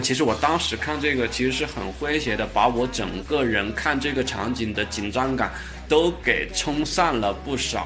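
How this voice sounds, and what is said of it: Mandarin with slight Changsha accent. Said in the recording (Chinese): “我有时候普通话不标准，长沙人就是这样。...我肯定也难免有一点，大家多多包涵啊。”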